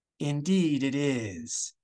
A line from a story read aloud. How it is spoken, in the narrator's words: she breathed